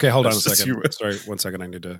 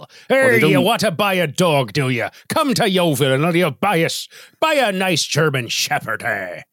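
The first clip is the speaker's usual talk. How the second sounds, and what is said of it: Put-on West Country English accent. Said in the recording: “That pirate accent is a West Country accent ... a kind of a countryside accent from the western part of the UK ... They don't project quite as much ... a spot on Yeovil accent ... It was a Canadian's estimation of one.”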